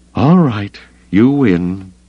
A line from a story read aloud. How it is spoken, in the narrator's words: she sighed